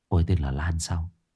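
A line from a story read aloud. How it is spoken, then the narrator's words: Soft mutter. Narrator (Vietnamese): Huy khẽ lẩm bẩm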